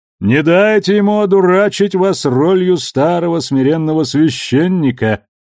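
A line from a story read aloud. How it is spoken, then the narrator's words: Booming from above. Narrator (Russian): прогудел над ее головой Кортес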